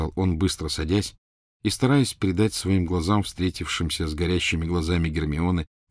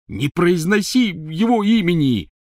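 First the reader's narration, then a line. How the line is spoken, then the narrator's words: Angry shout from tent. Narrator (Russian): сердито крикнул из палатки Рон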